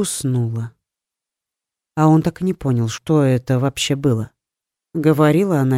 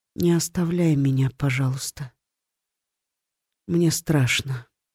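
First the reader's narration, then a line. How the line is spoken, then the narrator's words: Quiet plea. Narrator (Russian): тихо попросила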